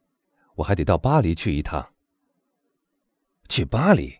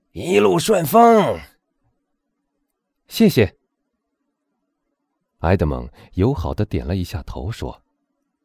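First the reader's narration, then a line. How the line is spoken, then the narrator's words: Loud call. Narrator (Chinese): 他大声喊道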